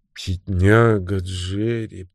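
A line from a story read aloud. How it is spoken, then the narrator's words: Thoughtful. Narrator (Russian): проговорил он задумчиво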